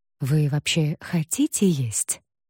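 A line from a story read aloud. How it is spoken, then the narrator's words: Whispered question. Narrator (Russian): шепотом спросил он у Вики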